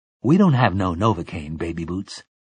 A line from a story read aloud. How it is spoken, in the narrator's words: Detta Walker said